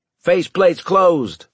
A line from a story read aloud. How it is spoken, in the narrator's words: I shouted